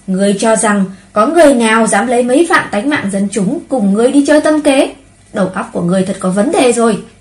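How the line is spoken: Cruel furious shout. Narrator (Vietnamese): Hạo Vân Đế biến sắc, thị huyết tàn nhẫn, quát

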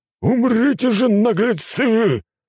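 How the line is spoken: Roaring otherworlder. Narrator (Russian): взревел иномирец

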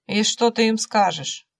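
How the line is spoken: Snort. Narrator (Russian): хмыкнул охотник

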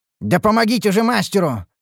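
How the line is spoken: Bark. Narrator (Russian): рявкнул я

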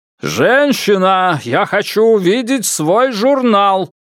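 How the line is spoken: Yelling after someone. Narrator (Russian): заорал ей вслед камерарий

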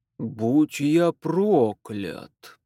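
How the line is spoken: Drawled. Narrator (Russian): протянул Фэрчайлд

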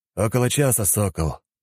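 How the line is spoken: Tired warrior's reply. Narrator (Russian): устало развалившись на земле, ответил дружинник

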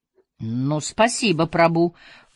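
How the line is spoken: Very dry, through clenched teeth. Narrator (Russian): процедил я сквозь зубы таким сухим тоном, что мог бы, пожалуй, обойтись без полотенца

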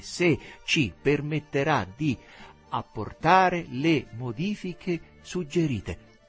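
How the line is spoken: Slow deliberate speech. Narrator (Italian): Teresa pronunciava lentamente

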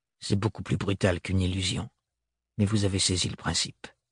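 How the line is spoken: Grumbling. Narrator (French): grommela Thorne

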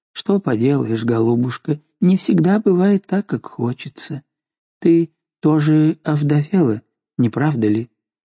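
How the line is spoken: Kind, gentle. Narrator (Russian): Но Жанна сказала ей ласково

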